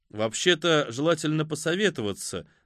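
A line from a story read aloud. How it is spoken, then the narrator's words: Indifferent tone. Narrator (Russian): добавил фон Хорст безразличным тоном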